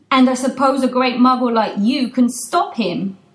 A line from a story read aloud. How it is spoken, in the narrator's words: says Hagrid